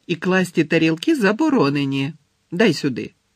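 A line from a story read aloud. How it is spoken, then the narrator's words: Stern command. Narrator (Ukrainian): суворо звеліла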